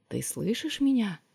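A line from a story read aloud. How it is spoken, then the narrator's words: Whisper. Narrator (Russian): прошептала она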